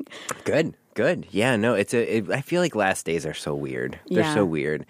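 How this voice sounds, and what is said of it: Congested voice with a cold. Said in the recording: “I have a little bit of a cold. ... So, apologies. ... Besides having a cold today”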